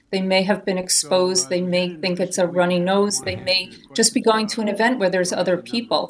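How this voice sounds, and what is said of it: New Jersey accent. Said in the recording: “I recognize that New Jersey accent.”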